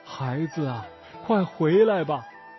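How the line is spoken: Mother crying out, weeping. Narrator (Chinese): 妈妈…一边擦着眼泪，一边哭叫着

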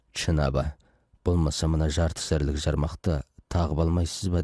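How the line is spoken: Plain. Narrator (Kazakh): деп еді

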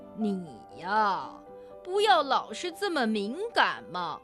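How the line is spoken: Good-natured laugh. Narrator (Chinese): 憨憨的鼹鼠笑着说

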